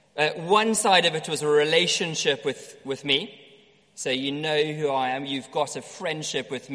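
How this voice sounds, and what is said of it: South African accent. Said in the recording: “Maybe I've got a South African accent. That's true.”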